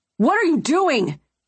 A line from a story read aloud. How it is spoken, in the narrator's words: Gunner yelled